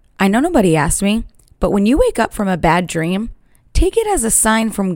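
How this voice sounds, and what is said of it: Usual voice. Nothing is said of it.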